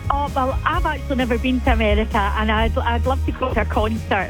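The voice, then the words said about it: A noticeable non-local accent. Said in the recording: “fantastic accent.”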